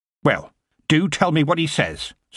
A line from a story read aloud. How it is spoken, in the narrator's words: said Granny sharply